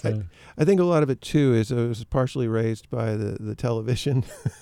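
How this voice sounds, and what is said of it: Faint southern US accent. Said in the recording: “This is one of the variations on a southern accent”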